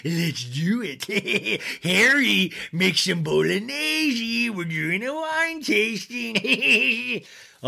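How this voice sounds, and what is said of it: Strained demon-like Rinna impression. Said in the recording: “my Rinna demon voice ... Wow, that hurt my throat.”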